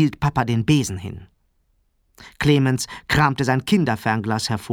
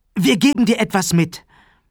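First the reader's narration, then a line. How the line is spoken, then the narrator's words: Eager call. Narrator (German): Sarah sprang auf und rief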